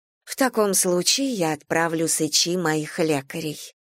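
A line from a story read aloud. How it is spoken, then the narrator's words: Plain. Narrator (Russian): сказала королева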